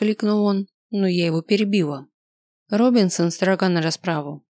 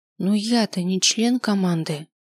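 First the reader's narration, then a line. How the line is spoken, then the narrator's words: Quiet reply. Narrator (Russian): тихо ответил я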